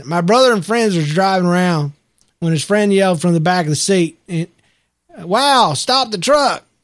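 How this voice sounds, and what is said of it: Reads in a put-on accent. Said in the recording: “this is the other one I got to do in an accent.”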